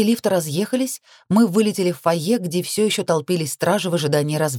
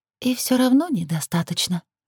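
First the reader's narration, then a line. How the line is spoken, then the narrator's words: Whispered. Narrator (Russian): прошептала Лилит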